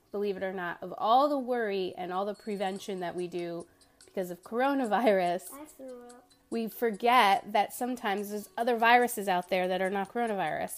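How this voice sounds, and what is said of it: Voice slightly sick and congested. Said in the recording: “You could probably still hear it in my voice a little bit.”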